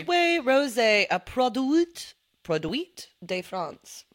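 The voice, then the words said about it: Bad put-on French accent. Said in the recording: “there's another accent for you... I'm really bad at them... A little French.”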